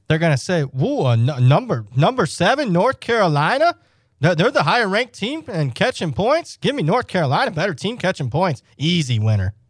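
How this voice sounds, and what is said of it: Imitates another person's voice. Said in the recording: “I was doing an imitation of Haystack.”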